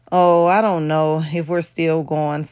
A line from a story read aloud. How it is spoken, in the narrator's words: Samantha said with a sigh